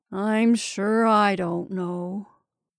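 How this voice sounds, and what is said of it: Dismal, gloomy voice. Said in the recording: “said the freckled man in a dismal voice.”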